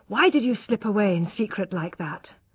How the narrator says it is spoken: asked d'Urberville breathlessly

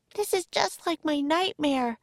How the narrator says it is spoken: cried Annie

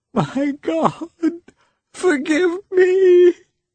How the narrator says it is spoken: she said, sobbing

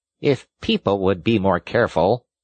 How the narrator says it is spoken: said a field mouse rather stiffly

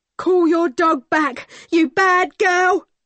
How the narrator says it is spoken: shouted

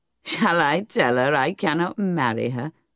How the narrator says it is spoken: laughed the soldier

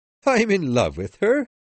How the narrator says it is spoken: said as he laughed

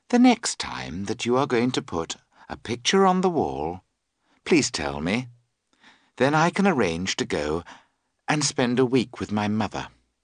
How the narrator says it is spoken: She added calmly

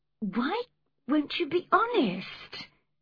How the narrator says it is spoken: cried Cathy

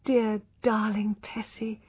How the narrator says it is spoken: whispered

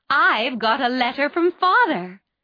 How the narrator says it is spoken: cried Mrs

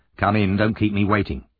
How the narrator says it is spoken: saying impatiently

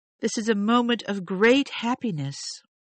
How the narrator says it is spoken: she cried

